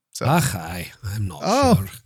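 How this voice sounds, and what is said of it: Put-on Scottish accent. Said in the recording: “I can do a good Scottish accent if you put me up to it ... Oh, it's good.”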